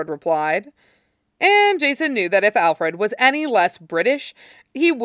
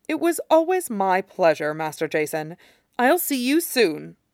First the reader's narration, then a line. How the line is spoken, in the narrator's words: said firmly, like it was a warning